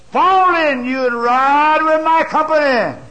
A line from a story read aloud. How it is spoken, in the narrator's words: Jehu shouted back